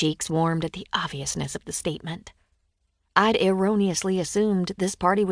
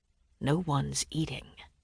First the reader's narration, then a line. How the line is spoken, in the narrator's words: the man whispered